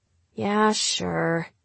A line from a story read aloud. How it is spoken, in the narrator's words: she grumbled